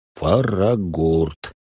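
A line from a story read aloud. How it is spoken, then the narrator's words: Mumbling. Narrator (Russian): пробормотал маг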